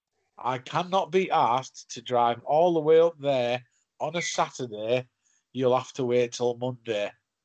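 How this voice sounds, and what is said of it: Imitated Wirral accent, not very good. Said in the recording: “not so a good Wirral impression.”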